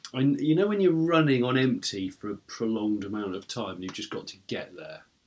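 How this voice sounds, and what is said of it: Slightly croaky tired voice. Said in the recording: “my voice might be a bit croaky”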